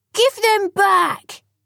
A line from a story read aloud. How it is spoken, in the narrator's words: shouted the children